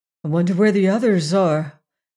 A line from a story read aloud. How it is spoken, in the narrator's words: asked Leonard anxiously